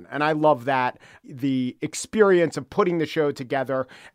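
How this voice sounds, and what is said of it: New York accent, slightly gruff. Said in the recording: “you don't sound like a quote unquote traditional NPR broadcaster. You have a New York accent. You sort of have a little bit of a gruff, like, everyday guy demeanor.”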